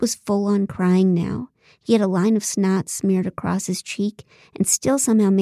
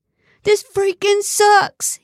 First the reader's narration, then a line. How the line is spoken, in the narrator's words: bellowed